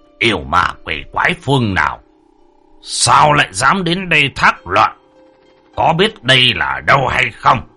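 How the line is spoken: Stern forceful voice. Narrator (Vietnamese): Ông gằn giọng đanh thép

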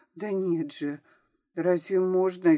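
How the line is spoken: Frightened. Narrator (Russian): испугалась Поля

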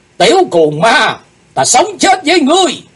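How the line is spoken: Shouting in unison. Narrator (Vietnamese): bọn chúng cùng quát lên

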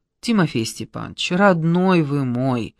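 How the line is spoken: Weary pleading. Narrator (Russian): устало попросила Маргарита Тихоновна

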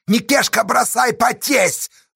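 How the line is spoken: Angry shout. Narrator (Russian): злобно крикнул Асташа

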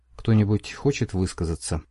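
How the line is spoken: Plain. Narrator (Russian): спросил, наконец, командир

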